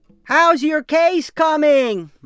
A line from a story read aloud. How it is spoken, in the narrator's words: would shout during commercial breaks